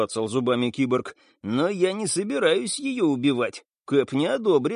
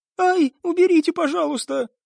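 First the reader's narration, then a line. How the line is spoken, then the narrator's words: Frightened squeal. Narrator (Russian): испуганно взвизгнула певица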